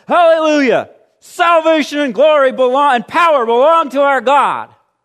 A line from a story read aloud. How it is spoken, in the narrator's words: the roar of a great multitude in heaven shouting